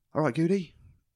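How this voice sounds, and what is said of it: Irish accent. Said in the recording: “In an Irish accent, obviously.”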